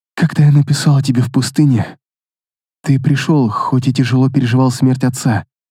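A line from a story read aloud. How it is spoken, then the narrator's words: Soft whisper. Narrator (Russian): тихонько прошептала она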